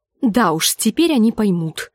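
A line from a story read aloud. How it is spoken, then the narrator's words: Through gritted teeth. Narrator (Russian): сквозь зубы сказала Гленда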